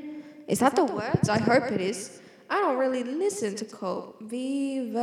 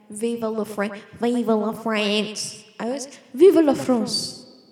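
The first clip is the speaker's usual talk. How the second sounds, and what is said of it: Put-on French accent. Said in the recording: “I can't say it in a normal Australian accent. I know I don't normally speak in my normal accent ... I become a Frenchman.”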